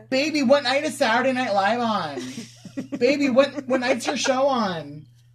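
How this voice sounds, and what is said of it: Imitates another person calling out. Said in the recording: “do an impression of Ariana Grande calling Pete Davidson from another room in the house”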